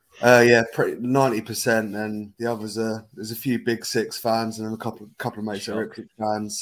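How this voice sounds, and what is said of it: Norfolk accent. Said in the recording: “just to clarify the accent, I think you live down in Norfolk”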